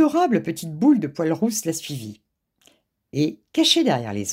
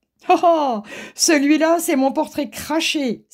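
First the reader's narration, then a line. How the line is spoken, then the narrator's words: Exclamation. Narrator (French): s'écria M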